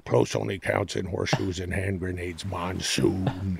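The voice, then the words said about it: Impression of Jesse Ventura. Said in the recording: “doing an impression of me at 10 doing an impression of Jesse Ventura”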